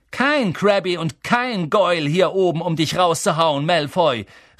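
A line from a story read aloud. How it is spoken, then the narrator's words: Shouted. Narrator (German): rief Harry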